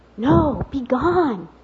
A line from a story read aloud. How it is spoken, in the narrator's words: the prompter whispered to Wally from the wings